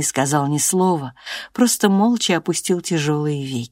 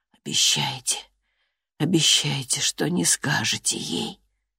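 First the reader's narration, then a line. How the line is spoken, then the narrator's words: Strained whisper. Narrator (Russian): он с усилием прошептал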